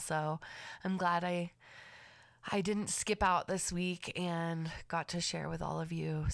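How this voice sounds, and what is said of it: Raspy, slightly congested voice. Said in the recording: “Excuse my raspy voice. I had a little bit of sniffles on here”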